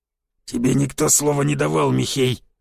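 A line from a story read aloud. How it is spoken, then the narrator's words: Growled. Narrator (Russian): зарычал Дроба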